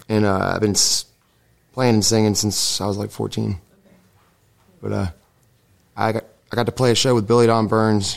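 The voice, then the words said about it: Slightly hoarse, strained voice. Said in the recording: “I'm losing my voice a little bit.”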